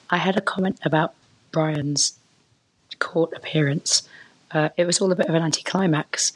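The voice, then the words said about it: Congested, sniffly voice. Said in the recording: “I do have a cold this week, so that's why my voice is quite different from usual”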